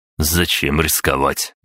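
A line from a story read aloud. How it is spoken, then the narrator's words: Wry snort. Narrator (Russian): я хмыкнул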